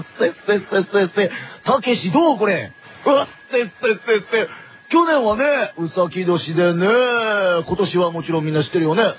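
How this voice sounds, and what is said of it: Imitates another person's voice. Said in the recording (Japanese): “誰このモノマネ最高。”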